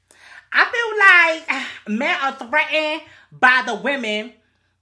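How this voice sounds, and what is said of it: Imitates a City Girls rapper voice. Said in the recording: “let me get my City Girl voice.”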